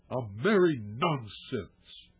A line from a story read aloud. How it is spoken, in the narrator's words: snarled, biting the words off short